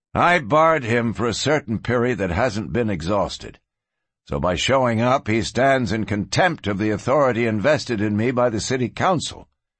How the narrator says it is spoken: Cord stated, in a level voice that carried

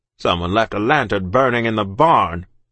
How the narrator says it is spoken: he snarled

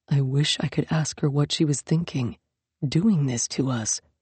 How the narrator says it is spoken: Yaskander murmured

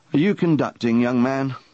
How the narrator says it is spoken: asked in a patronizing tone

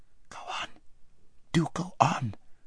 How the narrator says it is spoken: whispered Aravis, whose heart was beating terribly, and who still felt that her father might run into them at any corner

